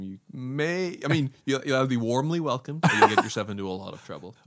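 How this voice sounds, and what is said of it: Northern Irish accent. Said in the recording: “I have an odd accent. My accent is a little bit strange... I'm from like Northern Ireland.”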